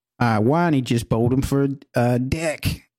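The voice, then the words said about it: Put-on Australian accent. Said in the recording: “in your best Australian accent ... Did you want to do your accent? ... That is good. That is good.”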